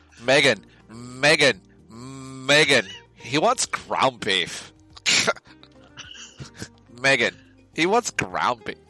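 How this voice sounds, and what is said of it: Valley Girl sorority accent. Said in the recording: “that's a real accent ... I was doing University of Kansas Sorority Girl ... That's Valley Girl.”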